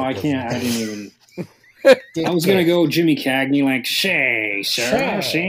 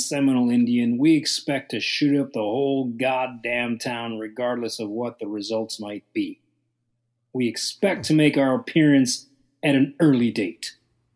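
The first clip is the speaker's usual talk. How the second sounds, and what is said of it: Weak fake Chicago accent. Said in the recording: “I was disappointed in your fake Chicago accent.”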